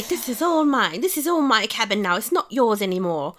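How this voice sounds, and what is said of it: Well-done put-on accent. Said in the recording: “That's very good accent.”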